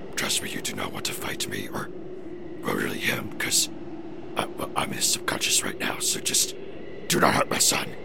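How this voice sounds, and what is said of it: Strange put-on voice. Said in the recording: “You started talking to me in this really weird voice.”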